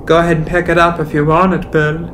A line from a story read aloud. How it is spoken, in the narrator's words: he called out